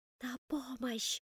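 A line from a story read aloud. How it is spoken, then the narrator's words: Silently mouthed whisper. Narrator (Russian): одними губами прошептала я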